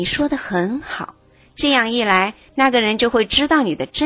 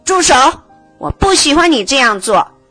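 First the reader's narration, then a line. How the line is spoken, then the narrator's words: Loud repetition. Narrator (Chinese): 吉米大声的重复道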